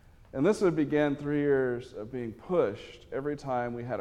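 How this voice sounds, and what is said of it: Usual voice. Nothing is said of it.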